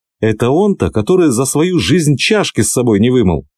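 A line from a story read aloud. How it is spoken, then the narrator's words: Exclaiming. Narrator (Russian): воскликнул он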